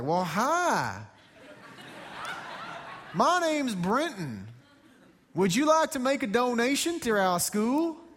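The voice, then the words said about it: Put-on American accent. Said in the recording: “an American accent. Your American accent's pretty good”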